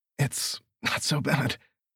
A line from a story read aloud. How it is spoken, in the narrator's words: panted